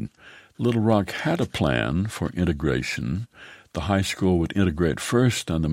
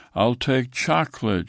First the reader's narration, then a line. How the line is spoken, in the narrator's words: shouted the ocelot